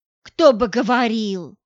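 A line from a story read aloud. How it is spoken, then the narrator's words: Snapping retort. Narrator (Russian): огрызнулась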